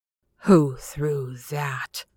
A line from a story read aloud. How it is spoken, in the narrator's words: he demanded in a choking voice